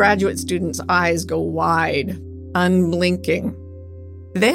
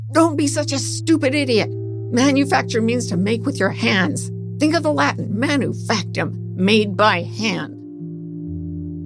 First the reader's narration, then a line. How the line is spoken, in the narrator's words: from the next room, my father jumps out, yelling